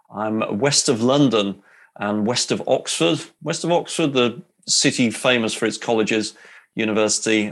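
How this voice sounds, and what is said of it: English accent. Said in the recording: “as you can tell from the accent there, yes, I'm in the UK. I'm in England.”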